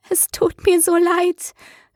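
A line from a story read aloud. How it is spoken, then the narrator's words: Whimpering. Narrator (German): wimmerte sie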